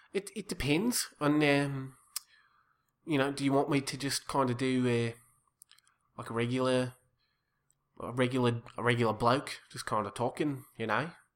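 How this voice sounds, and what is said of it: Put-on Australian accent. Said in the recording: “my Australian accent is good ... It takes a minute to get into”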